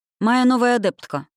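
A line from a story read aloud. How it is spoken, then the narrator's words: Dry explanation. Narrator (Russian): сухо пояснил куратор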